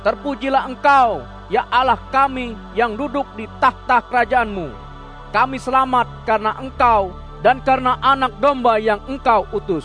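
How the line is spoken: Crowd crying out. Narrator (Indonesian): Mereka berseru-seru

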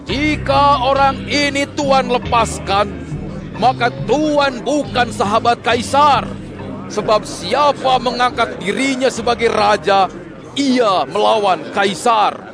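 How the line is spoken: Crowd shouting. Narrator (Indonesian): orang-orang Israel itu berteriak-teriak

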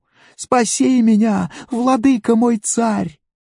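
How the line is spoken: Woman crying out. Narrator (Russian): одна женщина закричала ему

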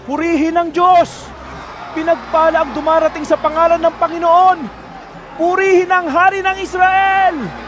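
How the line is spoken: Crowd shouting. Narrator (Tagalog): Sila'y sumisigaw

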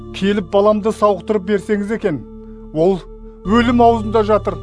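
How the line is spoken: Pleading. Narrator (Kazakh): деп өтінді

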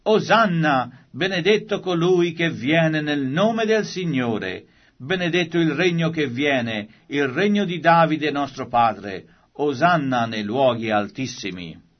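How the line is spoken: Crowd shouting. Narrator (Italian): coloro che andavano avanti e coloro che venivano dietro gridavano

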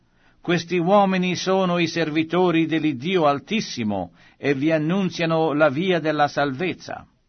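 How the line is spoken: Shouting. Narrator (Italian): Costei gridava

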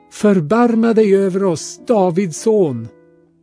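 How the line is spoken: Two blind men calling out. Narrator (Swedish): två blinda ropade

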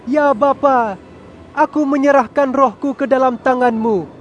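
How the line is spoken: Strong loud cry. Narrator (Indonesian): Yesus berseru dengan kuat

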